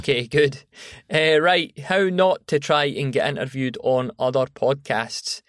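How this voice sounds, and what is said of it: British accent. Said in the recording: “a very cool accent all the way from across the pond”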